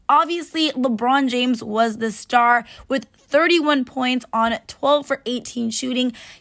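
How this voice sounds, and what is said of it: Raspy, partly lost voice. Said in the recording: “my voice is a little raspy, kind of lost it because I was actually at the game last night”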